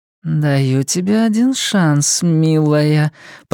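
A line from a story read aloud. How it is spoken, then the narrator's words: Purring. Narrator (Russian): промурлыкала она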